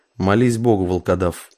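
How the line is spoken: Hissing threat. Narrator (Russian): прошипел смуглолицый завоеватель

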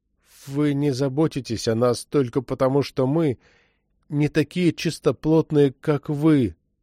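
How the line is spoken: Sad. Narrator (Russian): грустно произнес Джейкоб Симеон

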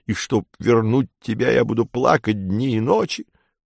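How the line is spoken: Low, sobbing, hysterical strain. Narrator (Russian): Спиридон уже вполголоса, но по-прежнему с рыданиями и с истерическим надрывом сообщил

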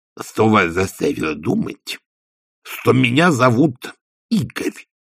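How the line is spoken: Lisping. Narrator (Russian): прошепелявил возница

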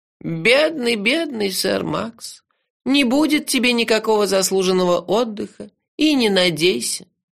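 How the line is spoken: Sad old man. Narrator (Russian): печально сказал старый дворецкий Джуфина

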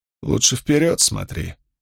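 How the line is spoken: Quiet. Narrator (Russian): тихо промолвила Лини

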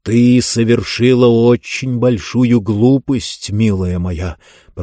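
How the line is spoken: Hissed. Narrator (Russian): прошипел Зонталомайстер

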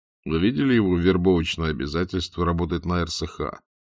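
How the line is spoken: Plain. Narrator (Russian): спросил Аркадий Аркадьевич

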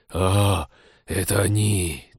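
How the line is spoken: Tragic wheeze. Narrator (Russian): трагически прохрипел Тед

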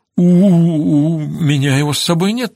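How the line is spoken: Stammering. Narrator (Russian): заикаясь, ответила она

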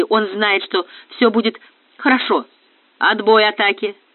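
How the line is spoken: Lower bass voice. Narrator (Russian): Тоном ниже пробасил Железовский

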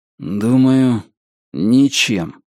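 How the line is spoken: Gloomy. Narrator (Russian): мрачно ответил Ричард

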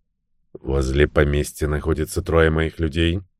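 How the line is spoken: Quiet. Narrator (Russian): негромко сказал суперинтендант

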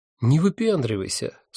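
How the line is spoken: Calm advice. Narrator (Russian): спокойно посоветовал один из них

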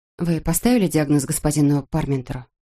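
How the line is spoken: Plain. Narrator (Russian): спросила она

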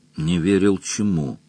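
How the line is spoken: Barely audible question. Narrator (Russian): еле слышно спросила Сесвайс

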